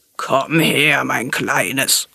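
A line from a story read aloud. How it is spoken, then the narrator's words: Crocodile's growl. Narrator (German): knurrte das Krokodil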